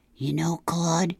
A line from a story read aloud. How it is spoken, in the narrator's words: whispered